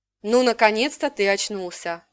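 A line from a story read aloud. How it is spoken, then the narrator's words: Sighing. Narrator (Russian): вздохнула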